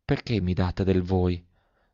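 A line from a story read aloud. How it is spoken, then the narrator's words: Girl's faint murmur. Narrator (Italian): mormorò la fanciulla con un fil di voce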